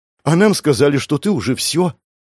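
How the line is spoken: Joyful exhale. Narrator (Russian): Радостно выдохнула зверолюдка

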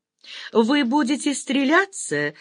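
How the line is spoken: Delighted laughter, clapping. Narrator (Russian): засмеялась и захлопала в ладоши восхищенная Олеся

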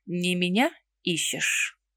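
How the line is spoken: Unnervingly calm question. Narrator (Russian): Слишком уж спокойно спросил пернатый

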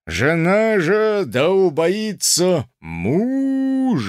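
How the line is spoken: Booming, deep, terrifying voice. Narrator (Russian): Громадный протодиакон трубил нечеловечески густым, могучим и страшным голосом

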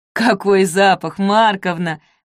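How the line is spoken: Neighbor woman's chuckle. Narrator (Russian): хохотнула соседка

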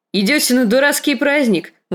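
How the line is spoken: Exclamation. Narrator (Russian): воскликнул сир Бриндон

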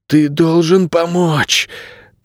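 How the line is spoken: Hoarse rasp. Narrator (Russian): прохрипел Найрет

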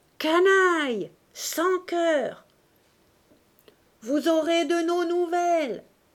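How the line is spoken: Yelling. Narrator (French): hurla Bush

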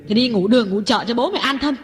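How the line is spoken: Aggrieved outcry. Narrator (Vietnamese): Ngọc uất ức kêu lên

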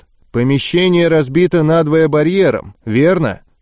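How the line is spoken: Dry question. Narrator (Russian): сухо спросил Гольф

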